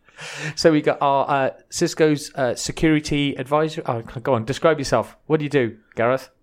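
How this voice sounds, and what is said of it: Exaggerated put-on Welsh accent. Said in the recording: “I put on my extra Welsh accent”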